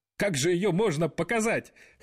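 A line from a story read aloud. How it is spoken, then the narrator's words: Guffawing laughter. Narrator (Russian): хохотал Дональд Трамп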